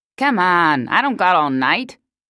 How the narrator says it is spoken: the eye barked

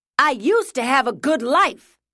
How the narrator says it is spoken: His shouts faded in and out

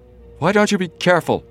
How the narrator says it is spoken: Joe shouted

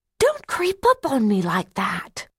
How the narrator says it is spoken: gasped

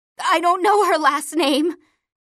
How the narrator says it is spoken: she cries

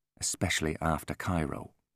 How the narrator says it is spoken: said, his voice soft and clipped

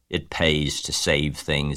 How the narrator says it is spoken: he said in his surly voice

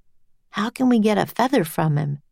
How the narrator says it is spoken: said Jack

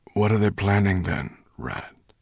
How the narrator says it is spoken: asked Slatebeard wearily

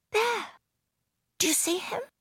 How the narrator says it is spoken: whispered

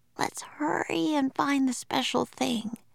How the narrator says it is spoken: whispered Annie

